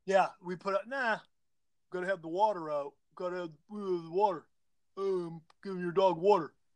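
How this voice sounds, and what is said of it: Deliberately dumb-sounding voice. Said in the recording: “dumb voice”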